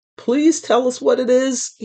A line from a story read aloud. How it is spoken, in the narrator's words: pleaded